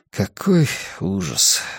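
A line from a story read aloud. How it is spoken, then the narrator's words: Sighing. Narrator (Russian): вздохнул я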